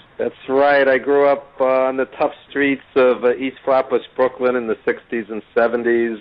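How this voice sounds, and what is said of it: Native New York accent. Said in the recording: “if people can't tell from the accent, I mean, you're definitely a native New Yorker.”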